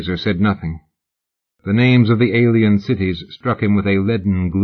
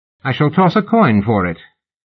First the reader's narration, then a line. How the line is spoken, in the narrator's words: her ladyship decided brightly